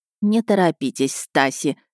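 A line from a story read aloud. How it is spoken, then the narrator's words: Plain. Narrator (Russian): сказала фрау Шмидт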